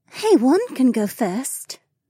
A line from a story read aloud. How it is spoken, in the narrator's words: Becca purred